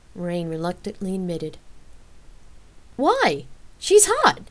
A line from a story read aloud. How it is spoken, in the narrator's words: he exclaimed